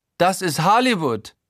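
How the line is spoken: Eccentric affected Styrian accent. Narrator (German): ruft Guido exzentrisch, mit langem A statt O und einem affektiert steirischen Schwarzenegger-Einschlag

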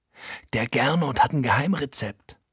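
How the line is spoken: Whisper. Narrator (German): flüstert Frankie

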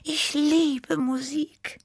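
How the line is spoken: Sighed. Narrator (German): seufzte Tibi

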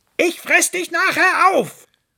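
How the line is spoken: Calling after. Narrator (German): rief ihm der Fuchs hinterher

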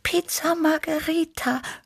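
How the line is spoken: Purring. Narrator (German): schnurrte Tibi

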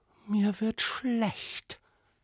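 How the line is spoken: Whispered. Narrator (German): wisperte die Prinzessin

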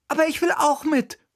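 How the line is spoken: Quick call. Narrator (German): rief sogleich

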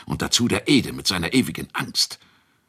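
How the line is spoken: Muttering to himself. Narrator (German): murmelte Ratschek vor sich hin

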